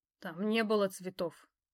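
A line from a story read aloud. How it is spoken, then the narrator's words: Resigned grumble. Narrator (Russian): проворчал я обреченно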